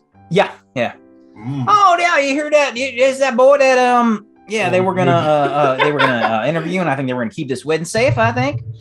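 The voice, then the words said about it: Mole character with southern accent. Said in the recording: “Do all moles have a southern accent? ... because they're from down south”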